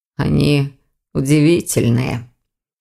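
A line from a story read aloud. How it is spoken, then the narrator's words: Young man mumbling. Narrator (Russian): пробормотал молодой человек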